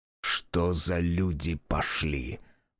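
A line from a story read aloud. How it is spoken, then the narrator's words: Muttered. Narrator (Russian): пробормотал он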